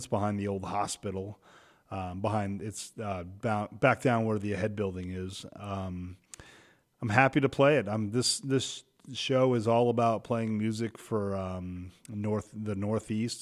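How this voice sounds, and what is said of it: Hoarse, failing voice. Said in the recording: “You can hear my voice is really dying here. I don't know if I've been yelling too much at my son's basketball game or I'm just catching what my wife has. She has a sore throat.”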